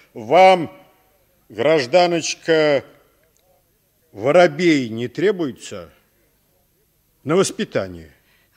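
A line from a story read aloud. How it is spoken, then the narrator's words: Stern question. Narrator (Russian): Милиционер строго спросил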